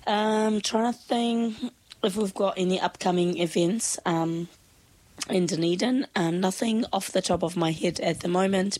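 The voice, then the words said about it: Voice sounds sick. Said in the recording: “Can probably tell by my voice, quite sick at the moment”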